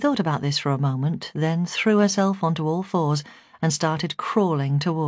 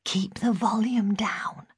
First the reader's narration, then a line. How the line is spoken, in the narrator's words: I whispered